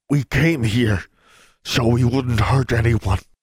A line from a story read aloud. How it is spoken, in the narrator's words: he panted